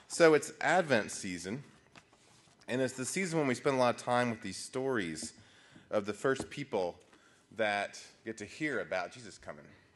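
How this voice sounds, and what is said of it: Slightly rough, under-the-weather voice. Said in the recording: “I've had the cold that some of y'all have had, so ... forgive my voice being a little under the weather”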